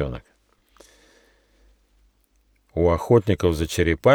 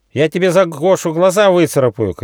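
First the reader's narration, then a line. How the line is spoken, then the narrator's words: Young squirrel shouting. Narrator (Russian): крикнул бельчонок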